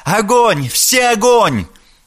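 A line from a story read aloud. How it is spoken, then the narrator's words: Frightened schoolgirl scream. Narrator (Russian): заорала голосом перепуганной глупой школьницы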